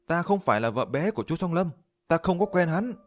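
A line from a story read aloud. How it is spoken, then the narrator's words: Hurried frightened female scream. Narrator (Vietnamese): Cô bổ nhí của Chu Song Lâm hoàn hồn, vội vàng thét lên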